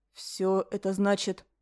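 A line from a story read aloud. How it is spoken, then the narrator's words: Quiet question. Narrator (Russian): тихо спросил Ален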